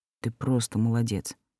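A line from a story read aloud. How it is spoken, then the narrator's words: Quiet. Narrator (Russian): негромко проговорил Олдер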